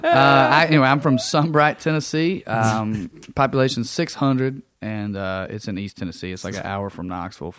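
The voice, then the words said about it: Thick East Tennessee Southern accent. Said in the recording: “I grew up in a little town in East Tennessee. I feel like my accent, I was kidding at first, and now I think it's getting thicker because I'm thinking about Tennessee.”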